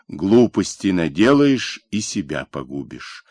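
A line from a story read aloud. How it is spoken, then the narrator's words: Stern, curt. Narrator (Russian): строго обрезал Бондарь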